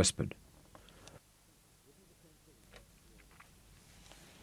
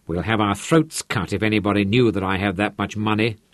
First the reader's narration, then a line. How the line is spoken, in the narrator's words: Hendrik grumbled